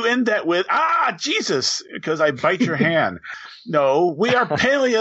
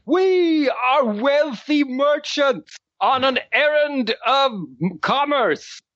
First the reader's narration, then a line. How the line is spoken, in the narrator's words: shout